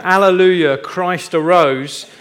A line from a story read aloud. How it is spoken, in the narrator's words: a voice was heard coming from under the church shouting